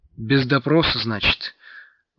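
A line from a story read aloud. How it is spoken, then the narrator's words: Sailor's sigh. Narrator (Russian): вздохнул матрос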